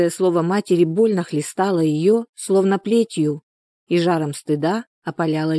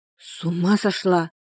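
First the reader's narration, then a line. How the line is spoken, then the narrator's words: Frightened speech. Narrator (Russian): испуганно проговорила Соня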